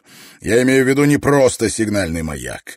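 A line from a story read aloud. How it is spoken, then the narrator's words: Barking. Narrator (Russian): рявкнул профессор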